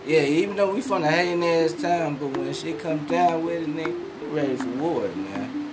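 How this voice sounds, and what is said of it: Deep Southern US accent. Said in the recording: “you got that southern draw... that deep south accent”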